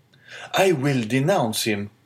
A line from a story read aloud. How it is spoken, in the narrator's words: exclaimed the young man hastily